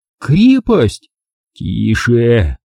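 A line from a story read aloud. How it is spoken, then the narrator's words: Bright exclamation. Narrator (Russian): Анжела просияла и воскликнула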